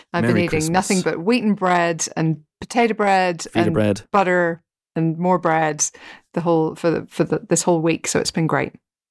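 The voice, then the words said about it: Thick Northern Irish accent. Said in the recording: “all the way from Port Stewart, Northern Ireland ... Has your accent become 20% thicker? ... Yes, probably. Yeah, absolutely.”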